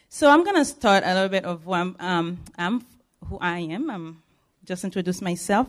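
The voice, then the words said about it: Haitian-accented English. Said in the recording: “My accent always give me away that I'm not from here. I am from Haiti, and I speak Creole and French.”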